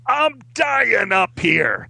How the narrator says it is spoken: yelled at him

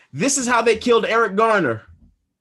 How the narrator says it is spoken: repeated yelling

